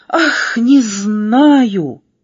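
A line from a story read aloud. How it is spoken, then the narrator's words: Sobbing. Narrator (Russian): всхлипнула буква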